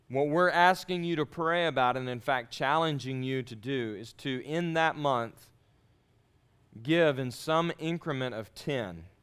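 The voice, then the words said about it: Speaks with a noticeable accent. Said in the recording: “With my accent, I have to say it slow because it sounds weird if I say it fast.”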